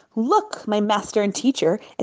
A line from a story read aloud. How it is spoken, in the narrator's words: exclaimed Lipa with pride